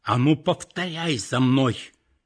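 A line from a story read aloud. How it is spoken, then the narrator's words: Grandmother, strange unfamiliar voice. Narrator (Russian): бабушка опять каким-то чужим голосом произнесла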